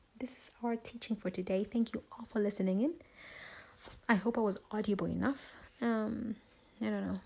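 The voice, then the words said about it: Hazy, slightly hoarse voice. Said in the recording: “My voice has some kind of, haze to it”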